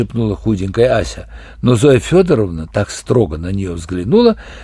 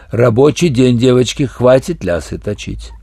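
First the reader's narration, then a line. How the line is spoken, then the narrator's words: Stern reminder. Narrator (Russian): она строго напомнила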